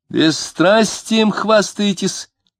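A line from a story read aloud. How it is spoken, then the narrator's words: Shout. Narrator (Russian): крикнула Любаша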